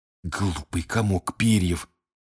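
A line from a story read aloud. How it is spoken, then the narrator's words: Hissing. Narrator (Russian): прошипел Рон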